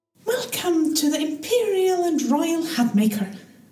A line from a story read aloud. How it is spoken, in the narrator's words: the young woman said cheerfully